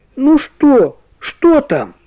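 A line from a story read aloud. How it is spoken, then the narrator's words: Anxious shout. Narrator (Russian): Валя с беспокойством … она закричала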